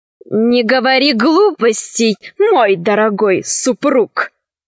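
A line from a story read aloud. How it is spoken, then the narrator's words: Venomous voice. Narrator (Russian): сказала ядовитым голосом графиня Констанца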